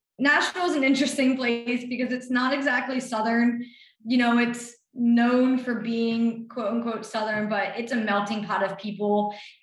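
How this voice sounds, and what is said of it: Philadelphia accent. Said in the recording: “obviously being a Philly girl ... You can probably hear it in my voice”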